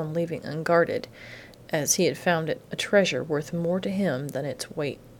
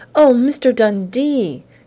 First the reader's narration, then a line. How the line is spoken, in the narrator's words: Carolyn Drake squealed